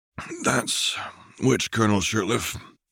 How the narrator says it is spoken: said a raspy voice

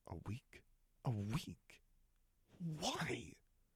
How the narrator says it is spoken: hissed

